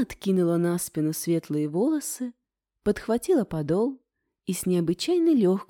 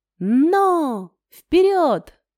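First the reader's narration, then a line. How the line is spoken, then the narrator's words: Shouting in unison. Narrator (Russian): в один голос закричали наездники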